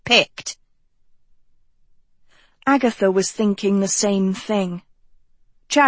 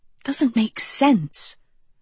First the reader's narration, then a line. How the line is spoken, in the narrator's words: Agatha whispered to Sophie